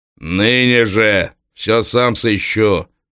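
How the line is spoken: Groom speaking menacingly. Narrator (Russian): грозно говорил жених

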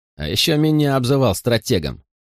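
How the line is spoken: Grumbling. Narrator (Russian): пробурчал Морли

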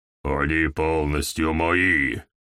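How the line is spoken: Growl. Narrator (Russian): прорычал Гаур

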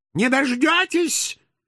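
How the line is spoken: Shrill frail old woman. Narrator (Russian): визгливо откликнулась едва стоящая на ногах скрючена скособоченная старушонка

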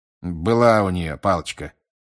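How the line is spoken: Grumbled. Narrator (Russian): проворчал мистер Диггери

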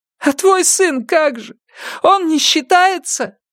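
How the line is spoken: Shout. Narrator (Russian): закричала Симона

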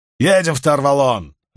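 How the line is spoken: Barked command. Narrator (Russian): рявкнул Ордейт

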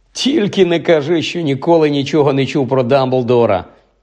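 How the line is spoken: Laughing. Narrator (Ukrainian): засміявся Рон

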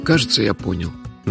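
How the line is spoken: Sigh. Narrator (Russian): наконец вздохнул он

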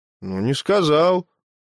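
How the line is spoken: Bewildered agreement. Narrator (Russian): растерянно согласился Кимпуруша

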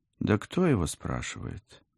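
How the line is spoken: Gloomy blurt. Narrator (Russian): мрачно брякнула я

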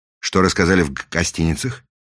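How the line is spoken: Quick question. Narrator (Russian): быстро спросил Фандорин

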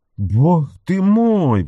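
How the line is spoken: Exclamation. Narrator (Russian): воскликнул он

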